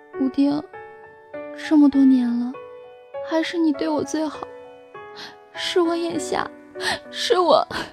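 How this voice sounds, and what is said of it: Quiet, sobbing voice. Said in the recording (Chinese): “小声的在我身后抽泣着，说着”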